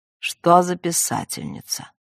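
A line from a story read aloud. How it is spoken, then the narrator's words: Old man's flat monotone. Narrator (Russian): Старик тем же безинтонационным тоном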